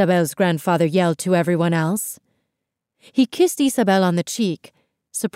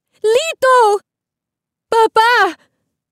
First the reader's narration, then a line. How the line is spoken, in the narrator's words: Isabel's mother cried